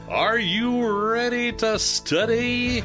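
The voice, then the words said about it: Radio DJ announcer voice. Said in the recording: “DJ voice”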